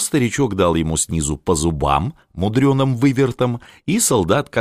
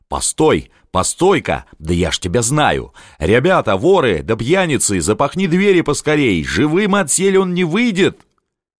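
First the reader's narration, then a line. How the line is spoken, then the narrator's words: Soldier yelling. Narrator (Russian): вдруг заорал солдат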